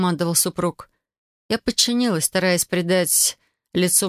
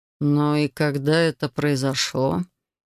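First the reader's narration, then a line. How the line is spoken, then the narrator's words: Gloomy demand. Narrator (Russian): мрачно потребовал он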